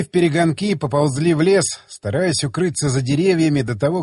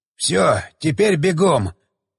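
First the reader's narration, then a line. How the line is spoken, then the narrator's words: Wheezed. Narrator (Russian): просипел Джо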